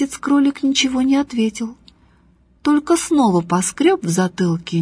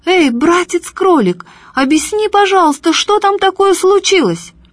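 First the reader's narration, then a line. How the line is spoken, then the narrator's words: Shouting. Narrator (Russian): матушка Медоуз закричала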